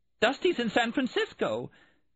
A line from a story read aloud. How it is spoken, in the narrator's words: Melanie said hysterically